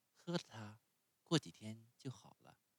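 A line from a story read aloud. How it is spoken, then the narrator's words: Gentle. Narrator (Chinese): 温柔地对他说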